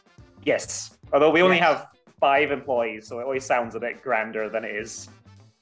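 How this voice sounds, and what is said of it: Scottish accent with American influence. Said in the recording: “I have about 20 years worth of America in me, which is why the accent is increasingly indecipherable the longer I go. I was born in Scotland.”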